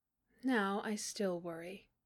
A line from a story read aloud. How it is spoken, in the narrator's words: May said quietly